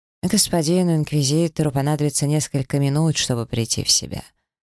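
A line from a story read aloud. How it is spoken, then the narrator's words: Calm old man. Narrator (Russian): спокойно пояснил пожилой маг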